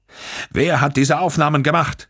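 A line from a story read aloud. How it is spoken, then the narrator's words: Thundering. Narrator (German): donnerte Olivetti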